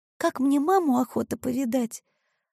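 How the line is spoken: Timid confession. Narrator (Russian): робко призналась Маришка

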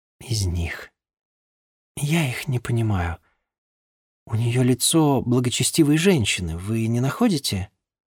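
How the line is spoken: Near-whisper. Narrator (Russian): позволив ей ответить, не шепотом, но близко к тому

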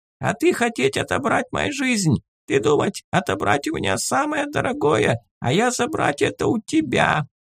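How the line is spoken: Creaky giggle. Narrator (Russian): Гоблин скрипуче хихикнул

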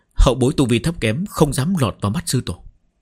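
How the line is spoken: Respectful, hiding fear. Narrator (Vietnamese): trong lòng run rẩy, nhưng không dám biểu lộ ra ngoài, cung kính đáp

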